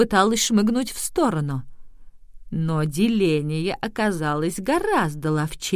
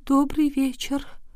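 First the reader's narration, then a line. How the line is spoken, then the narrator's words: Barely audible group whisper. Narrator (Russian): Несчастная четверка еле слышно прошептала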